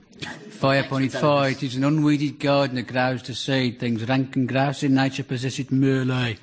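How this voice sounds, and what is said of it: Put-on Shakespearean Warwickshire accent. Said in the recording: “I'm speaking an authentic Warwickshire Shakespearean accent... An authentic Stratford-upon-Avon brogue.”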